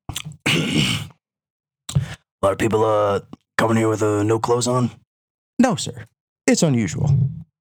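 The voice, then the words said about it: Imitates a movie character's voice. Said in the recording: “Let me try to do a better impression ... Do the impression ... No country for old men.”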